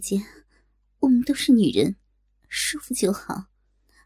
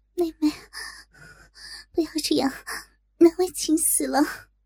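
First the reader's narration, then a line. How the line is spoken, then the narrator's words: Tense, breathless whisper. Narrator (Chinese): 小龙女紧张的喘息更加急促，低声道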